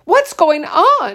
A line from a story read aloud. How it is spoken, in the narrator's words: her mother cried